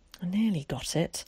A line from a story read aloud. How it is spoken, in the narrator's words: muttered to himself